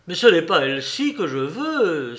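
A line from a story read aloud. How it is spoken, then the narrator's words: Exclaimed. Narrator (French): s'écria Jack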